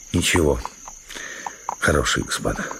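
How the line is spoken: Mumbling. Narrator (Russian): бормотал он

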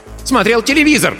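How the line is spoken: Barking. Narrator (Russian): рявкнула Джейн

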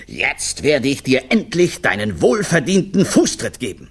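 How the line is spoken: Thundering voice. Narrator (German): Seine Stimme donnerte durch den ganzen Zirkus

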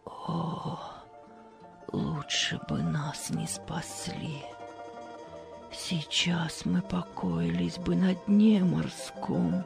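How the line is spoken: Despairing whisper. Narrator (Russian): на Марию снова нахлынуло уныние, и она в отчаянии прошептала

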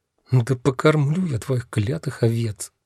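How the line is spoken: Muttering under breath. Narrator (Russian): Бормочу я себе под нос

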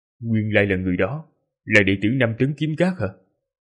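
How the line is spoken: Muttered. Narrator (Vietnamese): Hắn lẩm bẩm

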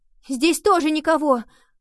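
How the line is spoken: Shouted. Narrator (Russian): прокричала она

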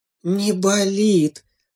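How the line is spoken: Relieved sigh. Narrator (Russian): облегченно вздохнула мама-зайчиха

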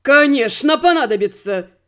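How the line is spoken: Frenzied near-shouting. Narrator (Russian): практически кричал невменяемый Игорь

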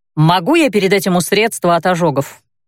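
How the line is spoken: Demanding tone. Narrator (Russian): произнесла таким требовательным тоном, что принять это обращение за вопрос было сложно

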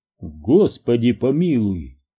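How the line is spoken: Exclamation. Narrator (Russian): воскликнул господин Дженкинс

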